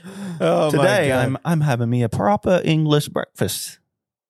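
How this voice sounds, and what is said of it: Poor attempt at British accent. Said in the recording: “say it in your best, like, British accent ... that's Australian too ... That horrible. Wasn't right.”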